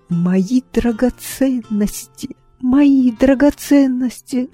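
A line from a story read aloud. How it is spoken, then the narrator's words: Moaning lament. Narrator (Russian): стонала леди Маргарет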